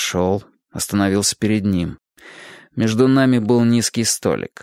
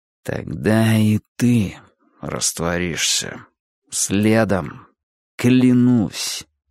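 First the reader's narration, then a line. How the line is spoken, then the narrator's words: Whispered through teeth. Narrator (Russian): Сказал шепотом сквозь зубы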